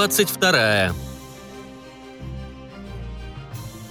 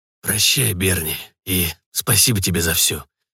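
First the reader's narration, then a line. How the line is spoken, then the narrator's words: Hoarse wheeze, swallowing hard. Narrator (Russian): просипел глава ордена, тяжело сглотнув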